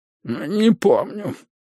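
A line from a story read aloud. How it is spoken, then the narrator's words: Creaky voice. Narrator (Russian): проскрипела она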